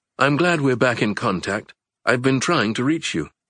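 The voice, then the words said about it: Calm British-accented character voice. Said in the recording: “Winston's voice with its familiar British accent.”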